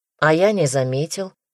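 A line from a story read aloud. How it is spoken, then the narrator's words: Calm. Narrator (Russian): спокойно ответил Рома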